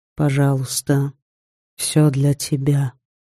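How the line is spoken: Quiet. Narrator (Russian): Женя тихо произнес

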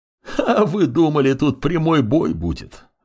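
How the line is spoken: Laughing. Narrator (Russian): рассмеялся лич

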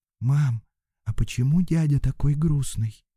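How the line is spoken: Quiet question, little girl. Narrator (Russian): девочка 5 лет … тихо спросила

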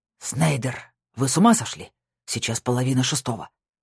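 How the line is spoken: Hissed into phone. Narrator (Russian): прошипел Франке в трубку

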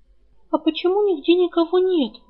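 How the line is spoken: Trembling, suspicious question. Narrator (Russian): дрожащим голосом спросила Рыска, подозревая какой-то подвох

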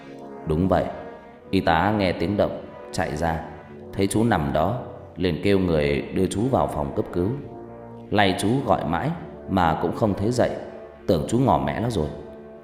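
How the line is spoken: Smiling. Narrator (Vietnamese): Vị bác sĩ mỉm cười

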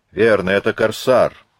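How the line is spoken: Shouting. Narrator (Russian): закричал Язон

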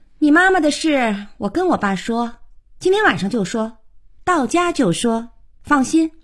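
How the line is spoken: Said without looking back. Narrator (Chinese): 小可头也不回地说

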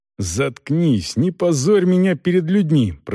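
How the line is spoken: Hissed. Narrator (Russian): прошипел Волков

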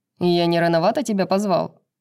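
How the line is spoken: Distant shout. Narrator (Russian): крикнул из реки Тарион

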